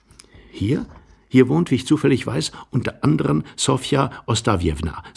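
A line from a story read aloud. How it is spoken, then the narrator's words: Young man's sympathetic whisper. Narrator (German): sagte der junge Mann flüsternd und sogar mit einem gewissen Mitgefühl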